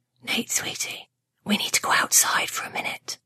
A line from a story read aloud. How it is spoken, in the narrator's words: Mom shook his shoulder lightly and whispered in his ear